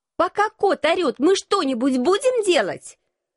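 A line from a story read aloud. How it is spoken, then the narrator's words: Shout. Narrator (Russian): Прокричала я Алексу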